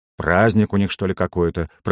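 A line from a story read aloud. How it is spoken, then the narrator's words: Grumbling. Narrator (Russian): пробурчал фонарщик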